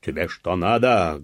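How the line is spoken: Loud barked shout. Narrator (Russian): гаркнул урядник

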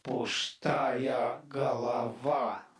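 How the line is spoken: Sudden groan. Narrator (Russian): внезапно простонал

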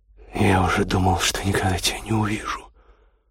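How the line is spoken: Hoarse voice. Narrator (Russian): хрипло сказал Костя

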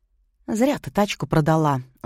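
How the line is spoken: Sighed. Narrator (Russian): вздохнула Плотникова

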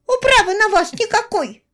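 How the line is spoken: Squeaky, in unison. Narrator (Russian): пискнули близняшки

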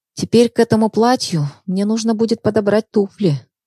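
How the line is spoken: Sigh. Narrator (Russian): вздохнула Даша

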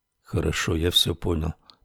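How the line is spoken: Mutter. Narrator (Russian): пробормотал Рекс

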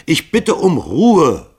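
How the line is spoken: Bellowing. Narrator (German): brüllte Hall sie an

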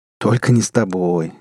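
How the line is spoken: Snide laugh. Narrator (Russian): ехидно рассмеялся Рон

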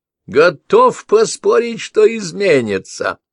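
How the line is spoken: Innkeeper laughing. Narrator (Russian): Трактирщик рассмеялся

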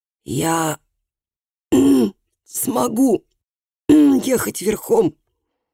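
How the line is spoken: Hoarse. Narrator (Russian): хрипло сказал он

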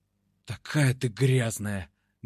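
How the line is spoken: Hoarse voice. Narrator (Russian): говорю охрипшим голосом

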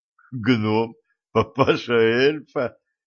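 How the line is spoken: Giggling. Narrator (Russian): хихикнул Валентин

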